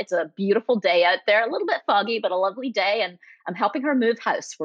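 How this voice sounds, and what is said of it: Scottish accent softened, sounds somewhat Canadian. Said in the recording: “my accent is the most distracting accent in the world ... South Africa, Canada, it's not quite right ... a Scottish accent ... you move it to California for 20 plus years. Apparently it ends up somewhere in the middle, sounding somewhat Canadian”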